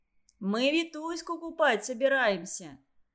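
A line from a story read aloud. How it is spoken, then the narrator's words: Cheerful. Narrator (Russian): сообщил он весело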